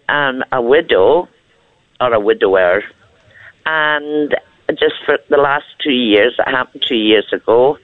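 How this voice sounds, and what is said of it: Scottish accent, elderly woman. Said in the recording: “I love your accent. ... Whereabouts in Scotland are you? I love your accent so much.”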